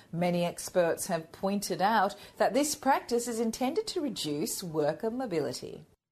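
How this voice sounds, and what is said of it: Australian accent. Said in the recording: “read it with an Australian accent ... at least we got the Australian accent in there. Same information, but with an Australian accent.”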